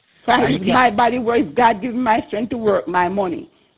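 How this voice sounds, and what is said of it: Passionate, emphatic speaking. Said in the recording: “I can hear the passion in your voice.”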